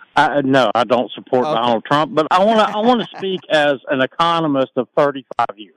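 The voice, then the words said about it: Southern US drawl. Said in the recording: “my southern drawl because I am from North Carolina”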